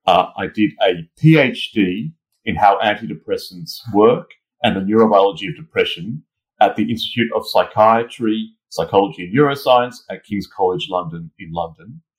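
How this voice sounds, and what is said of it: Australian accent. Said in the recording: “I'm originally from Australia, as you can tell from my accent.”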